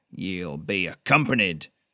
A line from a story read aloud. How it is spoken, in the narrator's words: Jonas snapped